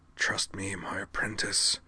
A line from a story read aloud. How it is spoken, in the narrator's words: Clef hissed through his teeth